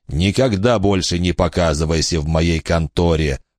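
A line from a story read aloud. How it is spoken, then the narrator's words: Gloomy tone. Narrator (Russian): произнес он мрачным тоном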